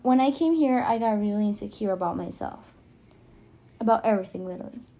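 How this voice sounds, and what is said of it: Non-native English accent. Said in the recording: “if you can't tell, I have an accent. So that means I'm not from here. English is my second language”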